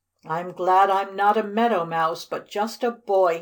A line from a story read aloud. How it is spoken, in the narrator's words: he cried